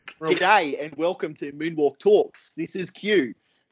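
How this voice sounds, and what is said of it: Exaggerated Australian accent. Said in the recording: “Oh, that's such an overly Aussie accent.”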